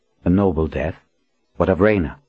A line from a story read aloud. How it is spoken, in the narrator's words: Berdine swallowed and forced her voice to stay level